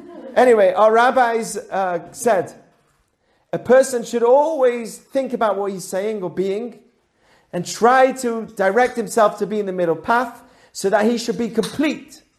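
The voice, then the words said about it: British accent. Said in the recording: “I speak with a British accent ... I'm losing it”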